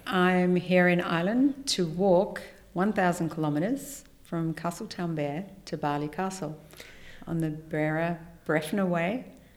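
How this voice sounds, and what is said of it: Australian accent. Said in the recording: “that's not a local accent ... I'm from Australia and I'm from Sydney.”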